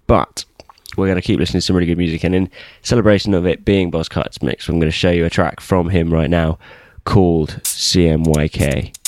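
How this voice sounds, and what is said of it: Congested voice from a cold. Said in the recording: “I have a cold, so that's going to get in the way a little bit.”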